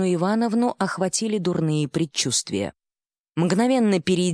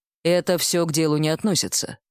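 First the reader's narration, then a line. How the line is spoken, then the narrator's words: Curt dry retort, strongman. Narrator (Russian): сухо отбрил богатырь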